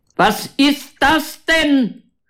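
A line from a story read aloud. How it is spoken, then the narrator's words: Overly loud shout. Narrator (German): schreit er überlaut, obwohl Elena ihm direkt gegenübersteht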